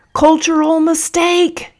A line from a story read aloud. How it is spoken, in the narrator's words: yelled Busuku again